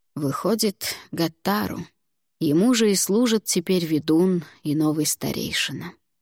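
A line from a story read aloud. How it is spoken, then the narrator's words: Weary. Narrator (Russian): устало произнес Альвар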